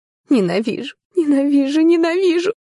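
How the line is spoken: Whispered between sobs. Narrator (Russian): шепчу между всхлипами

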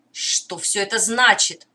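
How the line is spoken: Indignant shouting. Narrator (Russian): возмущенно выкрикивал Дукакис

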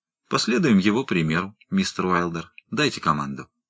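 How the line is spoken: Calm. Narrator (Russian): сказал спокойно

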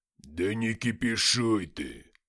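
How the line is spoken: Deep-voiced mercenary. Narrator (Russian): пробасил наемник

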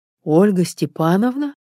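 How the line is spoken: Confused echo. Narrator (Russian): растерянно вторил ей Эдик

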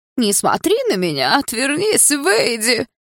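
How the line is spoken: Mocking thin-voiced shout. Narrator (Russian): Карикатурно тоненьким голосом выкрикнул он, явно пародируя меня

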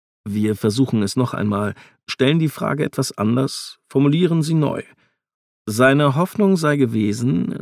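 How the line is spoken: Plain. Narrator (German): sagt Ford

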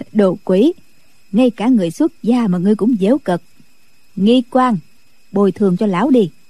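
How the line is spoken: Laughing. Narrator (Vietnamese): Định Vật bật cười nói

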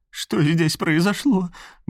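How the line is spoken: Trembling question. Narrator (Russian): дрожащим голосом спрашивала женщина

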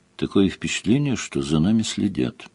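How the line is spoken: Quiet voice. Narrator (Russian): сказала тихо

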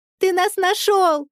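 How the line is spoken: Joyful squeal. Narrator (Russian): Радостно взвизгнув, Даша

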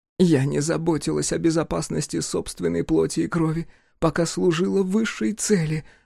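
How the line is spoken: Wailing. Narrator (Russian): взвыла Джиа

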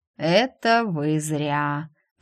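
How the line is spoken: Drawling patient. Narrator (Russian): протянул с койки мой недавно собранный пациент

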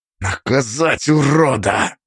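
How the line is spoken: Hissing. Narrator (Russian): Прошипел Косой

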